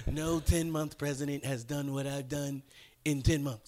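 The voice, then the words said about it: Imitates another person's voice. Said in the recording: “This impersonation.”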